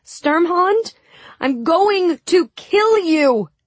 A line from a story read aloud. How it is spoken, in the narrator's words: I shouted